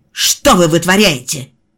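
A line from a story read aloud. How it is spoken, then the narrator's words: Woman barking sharply. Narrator (Russian): рявкнула женщина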